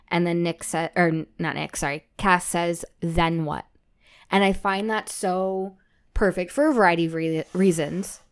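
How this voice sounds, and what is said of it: Slightly slurred speech. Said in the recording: “I'm slurring now. It's the coffee, I promise.”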